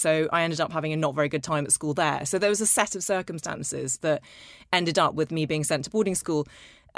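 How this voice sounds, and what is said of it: Posh English accent. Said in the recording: “I've always sounded posher than I actually am ... I've always spoken with a very English accent ... I spoke like this”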